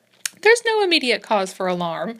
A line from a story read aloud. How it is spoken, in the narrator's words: said Dr